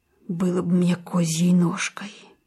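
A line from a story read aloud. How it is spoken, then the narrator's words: Medic mumbling. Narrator (Russian): бормочет фельдшер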